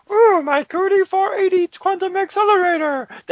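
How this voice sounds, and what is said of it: Marvin the Martian-like cartoon inflection. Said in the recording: “he sounds like Marvin the Martian ... I'm trying to get that Marvin the Martian inflection in there as well ... That's kind of what he sounds like.”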